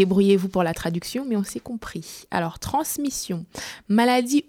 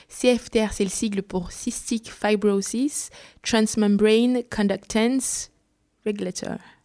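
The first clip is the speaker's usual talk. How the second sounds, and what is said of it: Put-on English accent. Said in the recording (French): “on va sortir nos accents anglais ... Excellent accent.”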